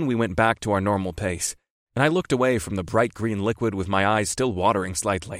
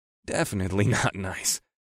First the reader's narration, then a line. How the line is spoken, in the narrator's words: agreed with a small chuckle